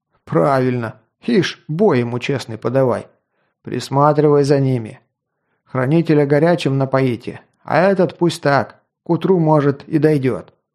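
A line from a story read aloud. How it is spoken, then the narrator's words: Chuckling. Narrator (Russian): Хохотнув, тот, что присвоил себе мой меч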